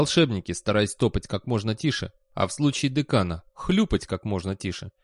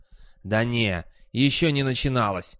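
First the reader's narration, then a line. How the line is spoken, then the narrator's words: Hissing. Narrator (Russian): прошипел профессор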